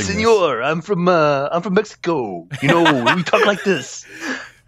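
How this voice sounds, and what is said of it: Over-the-top mock Mexican accent. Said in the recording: “the over the top, like, "Hey, señor," you know, like that, the kind of offensive racist accent”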